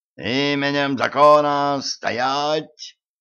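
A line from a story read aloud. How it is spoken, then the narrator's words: Yelling sergeant. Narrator (Russian): заорал сержант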